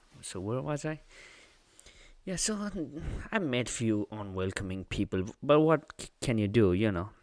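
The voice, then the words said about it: Non-native English accent. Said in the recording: “I'm not good at English. ... because I have an accent, because I'm not from here.”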